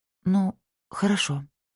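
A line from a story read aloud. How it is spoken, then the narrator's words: Quiet. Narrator (Russian): сказала я тихо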